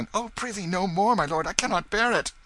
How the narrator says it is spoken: cried Tom

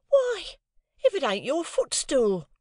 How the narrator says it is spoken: cried Flopson

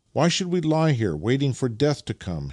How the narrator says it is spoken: he exclaimed as a new idea suddenly struck him

